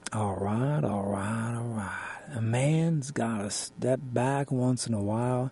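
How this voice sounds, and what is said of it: Weak Matthew McConaughey impression. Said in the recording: “I'm not even going to pretend I can do a good Matthew McConaughey impression,”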